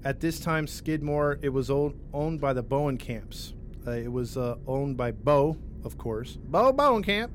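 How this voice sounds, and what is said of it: Put-on Missouri accent. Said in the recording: “I love the Missouri accent, right? ... I've got that one on point.”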